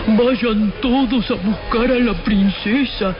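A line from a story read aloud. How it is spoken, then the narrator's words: Thunderous roaring emperor. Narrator (Spanish): rugió el emperador con voz de trueno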